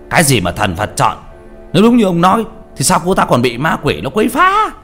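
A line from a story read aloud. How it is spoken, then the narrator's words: Angry voice. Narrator (Vietnamese): Vị pháp sư giọng giận dữ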